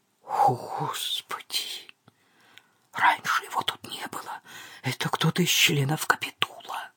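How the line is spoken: Fearful whisper. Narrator (Russian): в страхе прошептал

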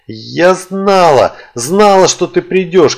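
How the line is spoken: Shouting. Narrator (Russian): кричала она

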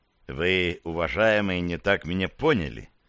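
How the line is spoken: More conciliatory tone. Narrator (Russian): продолжил более покладистым тоном

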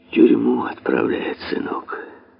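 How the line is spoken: Gentle answer. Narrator (Russian): ответил он ласково

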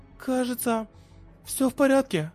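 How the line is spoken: Unsure young woman. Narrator (Russian): неуверенно сказала девушка

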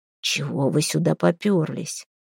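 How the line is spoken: Father hissing while walking. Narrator (Russian): прошипел отец на ходу

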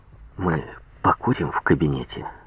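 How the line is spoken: Whisper. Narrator (Russian): Шепнул

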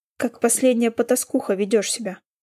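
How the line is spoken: Hissed through gritted teeth. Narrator (Russian): процедил Рональд сквозь зубы

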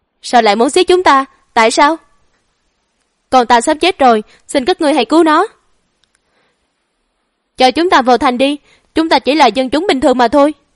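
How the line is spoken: Loud demanding shout. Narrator (Vietnamese): Lưu dân thấy đã hết nguy hiểm, liền hét to chất vấn

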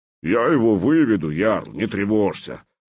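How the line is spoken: Deep bass voice. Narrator (Russian): пробасил Лунд

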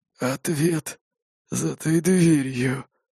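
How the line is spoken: Raider's hoarse rasp. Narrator (Russian): прохрипел налетчик

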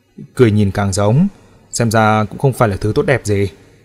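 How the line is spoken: Old woman's sighing remark. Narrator (Vietnamese): Lão bà thấy tôi chỉ cười không đáp thì thở dài nói

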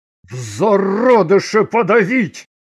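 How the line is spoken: Angry bark. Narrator (Russian): гневно подумал он и рявкнул

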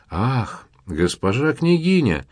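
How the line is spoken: Exclamation. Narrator (Russian): воскликнул Казимирчик

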